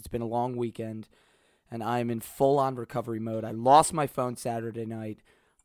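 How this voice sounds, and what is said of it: Hoarse voice. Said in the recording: “My voice is hoarse.”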